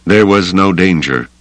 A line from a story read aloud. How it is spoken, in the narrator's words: the Wraith said flatly